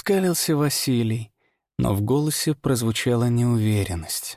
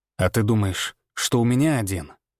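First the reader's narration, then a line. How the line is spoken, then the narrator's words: Low menacing growl. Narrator (Russian): Актриса издала низкое, угрожающее рычание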